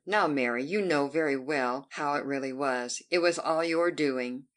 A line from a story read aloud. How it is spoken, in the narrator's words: laughed again and said